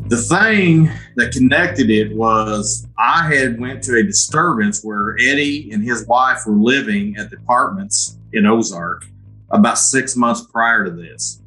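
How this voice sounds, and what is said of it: Southern Missouri accent. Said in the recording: “as you can tell from my accent, we're in southern Missouri.”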